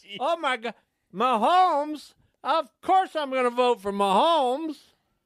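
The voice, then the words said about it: Put-on voice of an excited sports fan. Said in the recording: “I'm impersonating a Chiefs fan here, seeing this list for the first time ... There, that's my impersonation ... That was pretty bad.”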